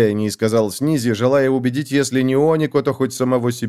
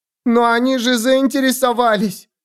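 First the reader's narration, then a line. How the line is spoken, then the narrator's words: Wailing. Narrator (Russian): взвыла она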